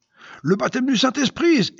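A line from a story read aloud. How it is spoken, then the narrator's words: Exclaiming. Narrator (French): s'exclama-t-elle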